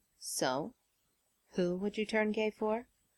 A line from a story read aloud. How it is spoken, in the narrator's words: Tony murmured against Peter's mouth